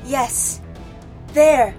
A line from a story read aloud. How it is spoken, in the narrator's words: Nyssa cried from her position, dangling from a hanging vine